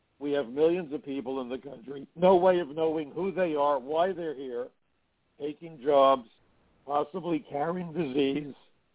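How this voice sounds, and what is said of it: Hoarse, strained voice. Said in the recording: “This laryngitis is more than I can deal with.”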